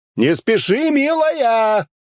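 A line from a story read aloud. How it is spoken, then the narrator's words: Shouted after. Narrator (Russian): закричал я ей вслед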